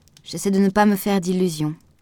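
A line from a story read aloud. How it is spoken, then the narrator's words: Plain. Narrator (French): dit-elle seulement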